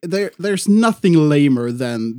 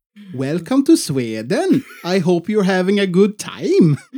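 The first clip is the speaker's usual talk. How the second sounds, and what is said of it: Mock Swedish accent in English. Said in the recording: “the Swedish accent for the English”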